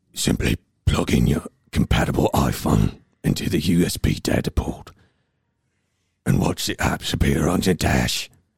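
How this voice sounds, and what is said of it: Liam Neeson impression. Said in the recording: “best Liam Neeson impression”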